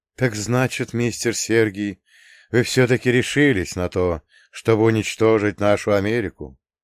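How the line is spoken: Old man sighing. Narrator (Russian): вздохнул старина Роберт

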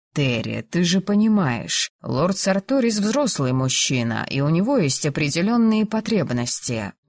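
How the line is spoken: Gentle. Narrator (Russian): мягко начал Лайгер

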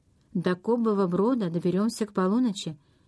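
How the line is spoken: Plain. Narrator (Russian): сказал Джейми

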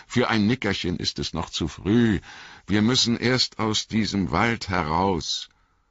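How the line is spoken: Calling out. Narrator (German): rief

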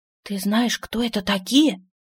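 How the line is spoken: Whisper. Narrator (Russian): прошептала Рена

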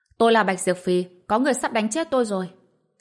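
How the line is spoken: Sudden loud shout. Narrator (Vietnamese): Bạch Diệp Phi đột nhiên hét lớn

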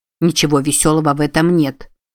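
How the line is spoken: Grumble. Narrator (Russian): проворчал Купер

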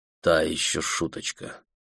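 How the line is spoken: Quiet. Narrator (Russian): тихо сказал он

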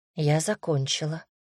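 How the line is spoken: Quiet. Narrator (Russian): негромко сообщила

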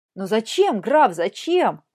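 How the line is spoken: Exclaiming. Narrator (Russian): воскликнула Екатерина

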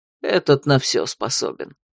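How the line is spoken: Sighing. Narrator (Russian): вздохнул чародей

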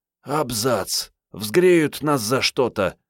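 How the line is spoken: Whispered through clenched teeth. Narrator (Russian): сквозь зубы прошептала Мариетта

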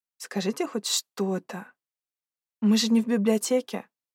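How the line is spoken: Timid request. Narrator (Russian): робко попросила

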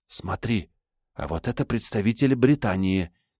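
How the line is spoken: Quiet speech. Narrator (Russian): тихо произнесла Елизавета

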